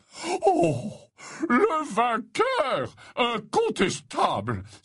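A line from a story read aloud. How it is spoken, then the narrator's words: Exclaimed to everyone. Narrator (French): s'écria-t-il à la cantonade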